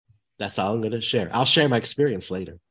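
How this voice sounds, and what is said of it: Much deeper, lower voice than usual. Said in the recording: “your voice is like three octaves lower today? ... I have a little bit of a cold. ... It could also be my morning voice ... It's almost very Brenda Vaccaro.”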